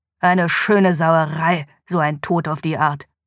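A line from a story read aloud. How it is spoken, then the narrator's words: Growled. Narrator (German): knurrte Police Sergeant David Morgan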